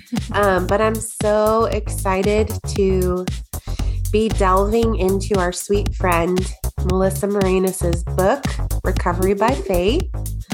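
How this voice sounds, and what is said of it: Congested, sick-sounding voice. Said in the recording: “excuse my voice. I have a little bit of a cold,”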